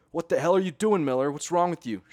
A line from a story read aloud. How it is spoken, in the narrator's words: shouted Ackerman